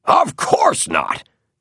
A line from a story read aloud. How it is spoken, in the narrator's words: barked Moore